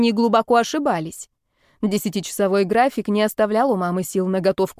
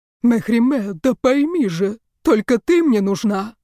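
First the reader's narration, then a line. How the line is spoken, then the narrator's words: Booming bass TV voice. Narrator (Russian): прогремел басистый голос из телевизора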